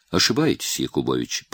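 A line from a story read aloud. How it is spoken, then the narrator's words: Calm. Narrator (Russian): проговорил Голицын спокойно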